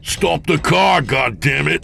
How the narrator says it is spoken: James bellowed

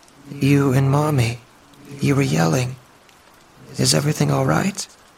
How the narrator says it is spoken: Her voice trembled, audibly upset

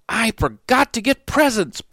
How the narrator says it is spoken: Pooh exclaimed

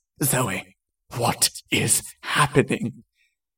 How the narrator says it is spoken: Jason asked, in a breathless voice

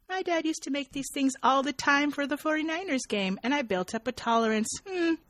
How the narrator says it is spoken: triumphantly and says

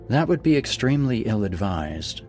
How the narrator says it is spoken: she said, her voice as calm as always

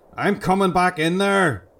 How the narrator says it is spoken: roared back

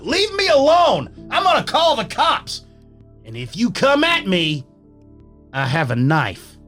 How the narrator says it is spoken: I get angry and I yell out

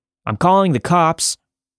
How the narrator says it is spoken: I wanted to look brave, so I shouted

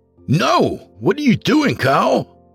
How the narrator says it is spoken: I shouted

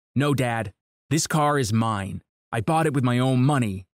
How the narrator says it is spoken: I said

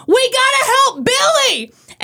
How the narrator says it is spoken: Indians manager Ken Aspromonte yelled

